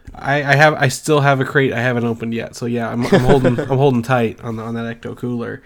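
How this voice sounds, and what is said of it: Sick, congested-sounding voice. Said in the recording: “I've been sick as a dog, and you can probably hear that in my voice. ... I have strep throat and sinus infection”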